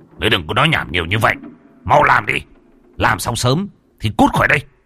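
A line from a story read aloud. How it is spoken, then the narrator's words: Shout. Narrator (Vietnamese): Mạnh Hùng ... mà quát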